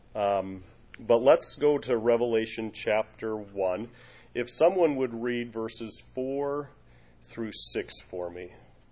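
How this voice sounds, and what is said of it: Congested, slightly nasal voice. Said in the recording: “I am still fighting a little bit of a head cold. And so my ears are kind of plugged up a little bit. ... I sound a little nasally.”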